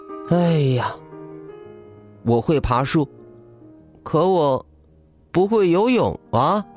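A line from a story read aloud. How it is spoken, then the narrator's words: Sighing. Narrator (Chinese): 孙小空叹了口气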